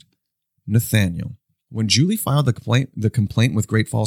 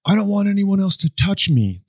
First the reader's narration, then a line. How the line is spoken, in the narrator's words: the boy screamed